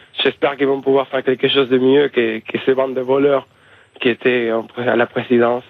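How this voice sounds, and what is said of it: Uruguayan Spanish accent in French. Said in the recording (French): “comme tu auras vu par mon accent, je suis uruguayen”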